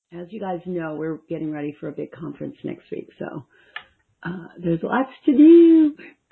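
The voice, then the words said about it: Strained, fading voice. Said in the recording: “I'm losing my voice from talking this week too much.”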